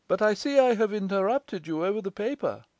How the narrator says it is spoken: said warmly

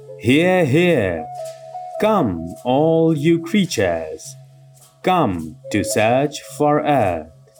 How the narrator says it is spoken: Coughing a little to clear his throat, the spirit proclaimed in a loud, booming voice

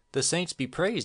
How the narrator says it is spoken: exclaimed Mary Donovan

